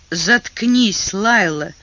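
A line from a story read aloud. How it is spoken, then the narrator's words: Angry, through gritted teeth. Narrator (Russian): Сквозь зубы со злостью процедил он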